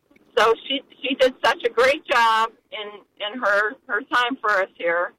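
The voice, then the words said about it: Sarcastic delivery. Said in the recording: “saying this sarcastically. ... This is sarcasm.”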